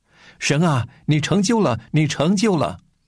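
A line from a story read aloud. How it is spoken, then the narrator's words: Shouting alone in empty hall. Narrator (Chinese): 我独自一人在空的会堂里开始喊叫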